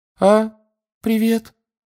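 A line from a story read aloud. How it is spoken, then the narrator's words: Unusually high voice. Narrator (Russian): сказал непривычно высоким голосом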